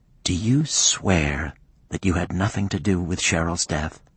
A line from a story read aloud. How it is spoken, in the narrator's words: His voice was firm and clear